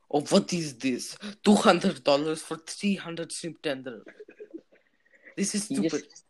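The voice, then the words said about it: Put-on foreign accent. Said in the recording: “I am not being racist with this accent”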